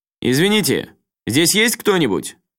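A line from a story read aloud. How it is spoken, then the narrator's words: Fairly loud question. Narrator (Russian): довольно громко спросил Рюдзи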